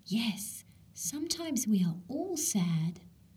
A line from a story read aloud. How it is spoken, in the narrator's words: Izzy thought she heard her pumpkin whisper